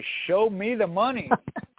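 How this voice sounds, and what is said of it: Imitates a movie character's line. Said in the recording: “my best Jerry Maguire impression”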